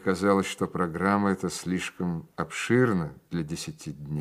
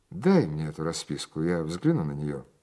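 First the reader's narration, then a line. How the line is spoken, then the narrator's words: Imposing tone. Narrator (Russian): произнес я внушительным тоном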